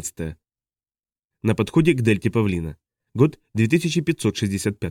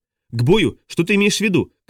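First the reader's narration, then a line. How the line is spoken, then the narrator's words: Shouting over a siren. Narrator (Russian): кричала Хоури изо всех сил, чтобы перекрыть рев сирены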